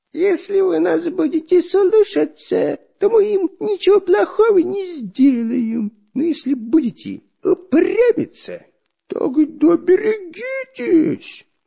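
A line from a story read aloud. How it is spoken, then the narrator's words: Nasal whine. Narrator (Russian): прогнусавил шпион Дырка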